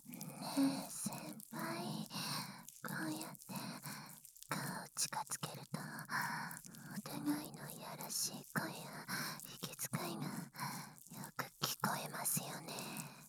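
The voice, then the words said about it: Whispering close to the ear. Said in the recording (Japanese): “耳元でささやかれると”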